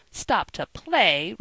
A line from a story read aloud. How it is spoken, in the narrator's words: retorted Joe indignantly